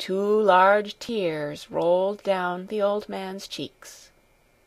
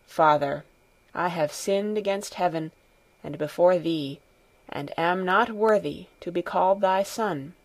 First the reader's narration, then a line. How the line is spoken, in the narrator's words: with bowed head said in a low voice